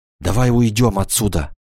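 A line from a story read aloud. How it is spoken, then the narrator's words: Exclaiming. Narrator (Russian): воскликнула она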